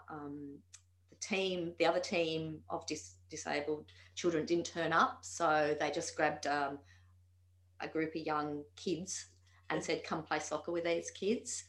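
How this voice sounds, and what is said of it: Strong Australian accent. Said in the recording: “the Australian accent is so strong ... are you from Australia?”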